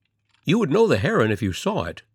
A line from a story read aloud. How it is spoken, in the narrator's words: the stranger continued eagerly